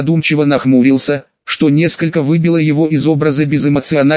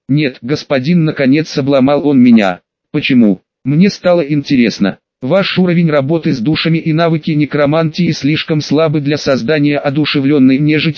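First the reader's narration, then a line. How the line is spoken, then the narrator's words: Plain. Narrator (Russian): ответил темный эльф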